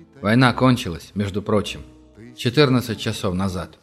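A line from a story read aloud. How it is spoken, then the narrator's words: Quiet. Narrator (Russian): тихо добавил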